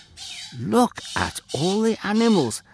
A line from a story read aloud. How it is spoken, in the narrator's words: Ham exclaimed, his mouth hanging open in astonishment